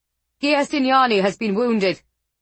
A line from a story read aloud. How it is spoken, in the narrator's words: Radu shouted